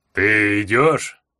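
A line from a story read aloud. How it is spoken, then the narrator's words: Lazy casual question. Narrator (Russian): Лениво спросил орк, будто интересуясь тем, что я буду есть на завтрак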